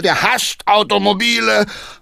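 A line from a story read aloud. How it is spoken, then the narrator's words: Calling out. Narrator (German): rief Hackendahl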